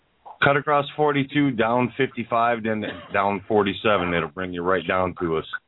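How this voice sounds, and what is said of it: Deep booming radio voice. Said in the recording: “good radio voice... two packs a day, gives you a great voice... boom radio voice”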